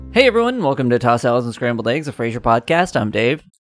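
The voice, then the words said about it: Speaking very quickly. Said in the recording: “Do you always say that so quickly?”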